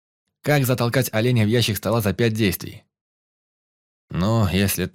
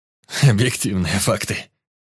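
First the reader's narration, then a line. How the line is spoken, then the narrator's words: Barely spoken through laughter. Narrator (Russian): еле выговорил он сквозь смех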